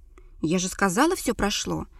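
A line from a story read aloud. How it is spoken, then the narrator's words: Cold declaration. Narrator (Russian): холодно заявила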